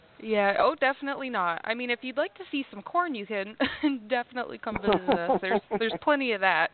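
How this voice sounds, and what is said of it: Midwestern American accent. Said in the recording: “you got the Midwest accent”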